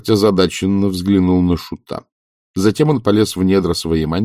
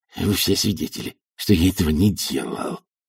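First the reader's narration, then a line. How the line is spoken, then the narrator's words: Muttered. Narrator (Russian): бормотал герцог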